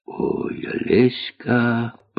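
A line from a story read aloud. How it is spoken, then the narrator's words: Whispered. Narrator (Russian): прошептал Остап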